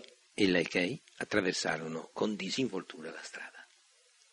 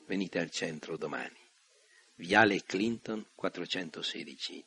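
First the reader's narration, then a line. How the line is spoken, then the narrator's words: Plain. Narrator (Italian): disse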